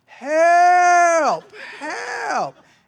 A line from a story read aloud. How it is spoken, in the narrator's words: yelling